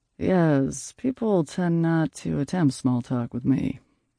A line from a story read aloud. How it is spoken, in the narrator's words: Jude drawled